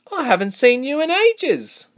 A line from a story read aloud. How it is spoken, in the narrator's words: Reshma exclaimed